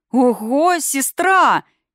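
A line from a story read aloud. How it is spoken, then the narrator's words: Happy howl, young eagle. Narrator (Russian): счастливо взвыл молодой орлан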